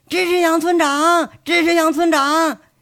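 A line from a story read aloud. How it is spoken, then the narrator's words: Children shouting. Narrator (Chinese): 一群半大的小屁孩子还跟在背后喊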